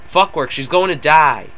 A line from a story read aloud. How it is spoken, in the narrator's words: Charlie shouted